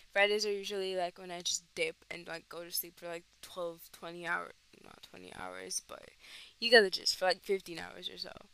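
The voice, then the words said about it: Tired-sounding voice. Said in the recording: “if I sound tired,... I sound like this because I sound like this”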